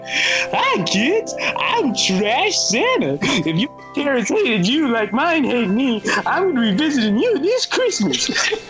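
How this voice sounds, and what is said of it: Comic character voice. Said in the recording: “We came up with this character called Trash Santa ... we gave him a voice too, so it's pretty funny”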